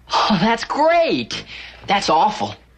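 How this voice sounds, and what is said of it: Abrupt switch from cheerful to dismayed. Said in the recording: “That's a very good impersonation of Jekyll and Hyde.”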